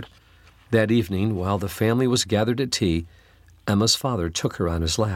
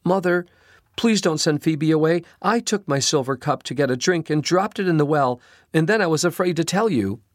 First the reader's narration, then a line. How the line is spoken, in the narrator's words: cried